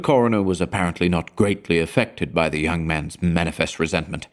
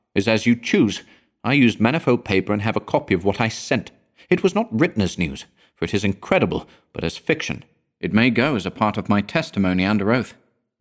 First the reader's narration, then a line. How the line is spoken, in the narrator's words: replied the other, rather hotly and with a visible flush